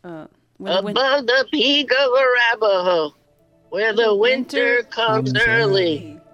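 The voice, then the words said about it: Convincing old lady voice. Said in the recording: “That was a good voice you just did. ... That was a great old lady voice. ... It was very convincing.”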